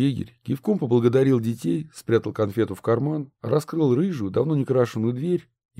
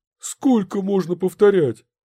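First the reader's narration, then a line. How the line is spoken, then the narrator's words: Exclaiming. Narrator (Russian): воскликнул он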